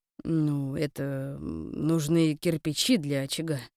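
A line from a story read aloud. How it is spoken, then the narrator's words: Muttered grumble. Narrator (Russian): буркнул Тарун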